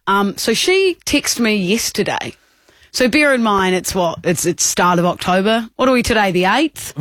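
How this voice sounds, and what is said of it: New Zealand accent. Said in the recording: “I'm from New Zealand, Kia ora, if you didn't tell by the accent”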